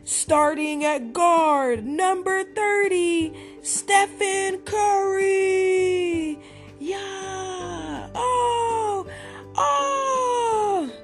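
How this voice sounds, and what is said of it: Yelling like a screaming crowd. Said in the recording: “yelled in his best crowd screaming voice.”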